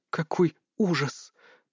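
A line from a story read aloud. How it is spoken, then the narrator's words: Whispered. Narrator (Russian): прошептала Белецкая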